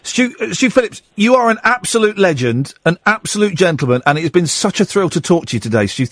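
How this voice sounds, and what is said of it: British English accent. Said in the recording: “You sound just like my son-in-law. My son-in-law is British. ... I know there's so many different dialects in ... England”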